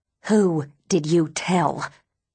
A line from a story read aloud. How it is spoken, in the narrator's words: She snarls